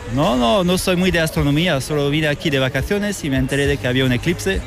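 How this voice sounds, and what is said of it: French accent speaking Spanish. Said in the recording (Spanish): “por tu acento, yo creo que de Madrid no eres ... soy francés”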